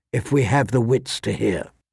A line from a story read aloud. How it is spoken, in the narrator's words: said softly